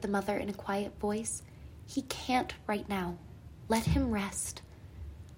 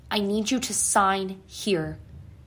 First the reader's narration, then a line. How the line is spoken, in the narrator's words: he said in a commanding voice